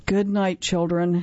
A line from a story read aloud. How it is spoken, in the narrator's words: he said sadly